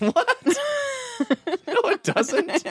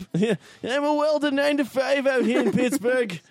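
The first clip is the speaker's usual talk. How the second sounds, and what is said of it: Put-on regional accent, not quite right. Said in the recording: “This isn't the right accent ... Sounds like a weird Michael Shannon.”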